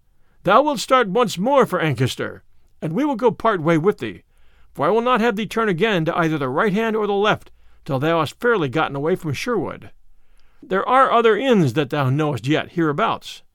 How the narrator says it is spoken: said Robin, laughing

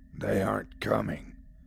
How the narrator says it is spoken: growled the voice

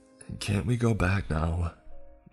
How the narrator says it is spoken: I asked my sister in a whisper

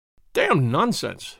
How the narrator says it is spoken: he spluttered

